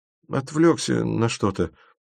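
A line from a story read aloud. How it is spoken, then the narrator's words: Muttered. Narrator (Russian): пробормотал Тимофеев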